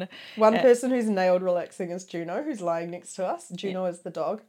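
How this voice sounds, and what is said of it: New Zealand accent. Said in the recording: “the one with the New Zealand accent”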